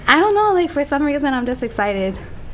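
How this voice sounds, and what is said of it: Excited, out of breath. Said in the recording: “Why do you sound like that? ... out of breath”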